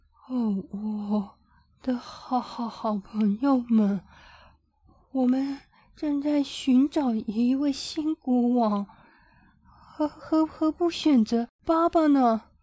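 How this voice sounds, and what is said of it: Trembling, stuttering old elephant voice. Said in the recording (Chinese): “所有大象中最年长的科涅柳斯用他颤抖的声音说”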